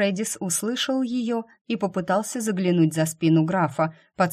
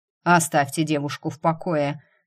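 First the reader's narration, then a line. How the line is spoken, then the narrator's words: Barked. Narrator (Russian): рявкнул Грегори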